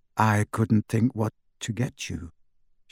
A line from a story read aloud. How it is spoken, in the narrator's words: she said